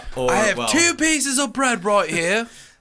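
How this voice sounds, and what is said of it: Poor imitation of a British accent. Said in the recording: “That was a fucking shitty accent.”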